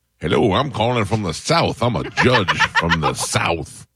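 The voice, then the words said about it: Put-on fake Southern caller voice. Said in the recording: “do you your fake voice ... my number one voice”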